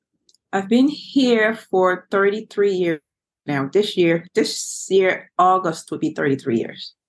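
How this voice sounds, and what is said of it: Liberian West African accent. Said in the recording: “you are actually from Liberia, West Africa. ... That's where you get that beautiful accent.”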